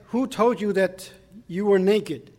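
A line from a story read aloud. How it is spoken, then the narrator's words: Plain. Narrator (Chinese): 神说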